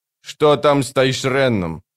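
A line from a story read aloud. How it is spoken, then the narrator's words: Sharp question. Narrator (Russian): резко спросил капрал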